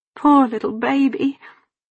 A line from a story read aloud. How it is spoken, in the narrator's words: Polly sobbed